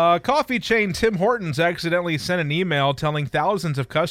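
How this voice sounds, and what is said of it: Usual voice. Nothing is said of it.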